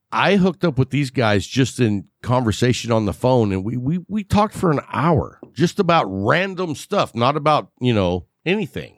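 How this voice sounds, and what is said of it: West Texas accent. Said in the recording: “my accent is shitty ... I got that West Texas thing going”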